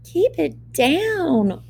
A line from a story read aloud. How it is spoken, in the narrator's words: whined Goldilocks